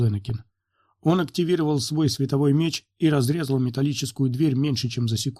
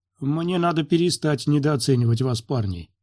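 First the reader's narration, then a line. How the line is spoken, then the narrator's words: Plain. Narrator (Russian): сказал Свенни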